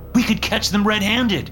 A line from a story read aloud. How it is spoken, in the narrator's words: I cried